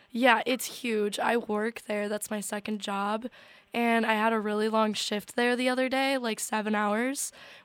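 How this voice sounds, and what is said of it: Hoarse, losing voice. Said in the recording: “how bad my voice is ... what's wrong with your voice? You got party voice ... I'm losing my voice ... you sound insane ... You sound like Ronald McDonald”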